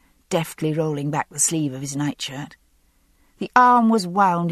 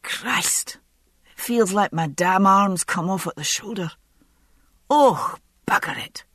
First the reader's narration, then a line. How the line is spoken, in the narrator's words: he exclaimed